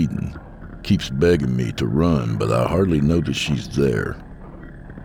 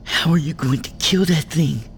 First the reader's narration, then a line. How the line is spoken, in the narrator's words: Maria hisses